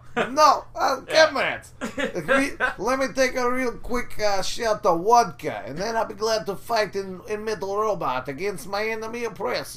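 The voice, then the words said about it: Put-on stereotypical Russian accent. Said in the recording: “talked like Boris”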